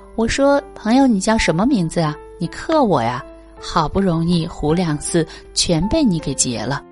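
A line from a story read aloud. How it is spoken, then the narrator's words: Angry, amused question. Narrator (Chinese): 我又气又笑，我主动问他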